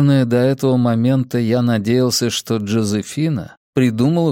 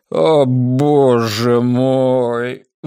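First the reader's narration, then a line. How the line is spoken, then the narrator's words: Strained. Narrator (Russian): выдавил он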